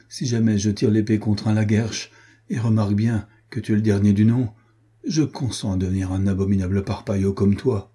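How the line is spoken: Exclaimed. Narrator (French): s'écria Renaud

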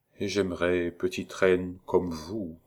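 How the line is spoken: Very quiet. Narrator (French): prononça tout bas le duc

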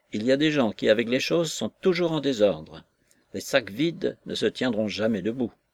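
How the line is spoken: Gruff tone. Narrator (French): Taliban d'un ton bourru

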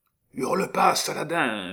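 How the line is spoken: Tearful murmur. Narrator (French): murmura Échalot, qui avait des larmes plein les yeux

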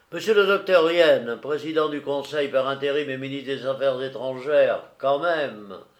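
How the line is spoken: Loud shout. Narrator (French): criai-je d'une voix assez forte

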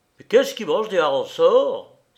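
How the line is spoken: Furious exclamation. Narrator (French): s'écria le commis principal d'un ton furieux

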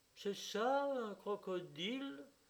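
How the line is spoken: Drawling, disappointed. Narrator (French): dit Elena Ivanovna d'un ton traînant et déçu

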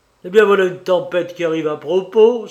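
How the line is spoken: Exclaiming. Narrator (French): s'écria-t-il

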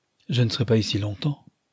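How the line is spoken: Dry remark. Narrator (French): observa-t-il sèchement

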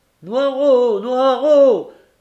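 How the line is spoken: Sudden anguished choked cry. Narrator (French): cria tout à coup une voix étranglée par l'angoisse

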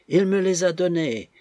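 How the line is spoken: Still shouting pitifully. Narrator (French): criait toujours la pauvre Betsy

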